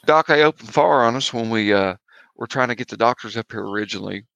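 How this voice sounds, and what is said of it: Put-on Tennessee accent. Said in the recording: “I got to talk in my Tennessee accent.”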